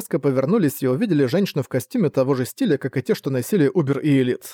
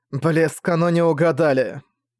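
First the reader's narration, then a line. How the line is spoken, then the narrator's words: Mechanical hiss. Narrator (Russian): ответило мне механическое шипение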